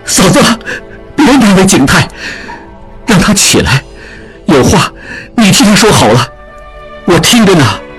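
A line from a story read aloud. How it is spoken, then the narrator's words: Trembling voice. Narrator (Chinese): 颤声说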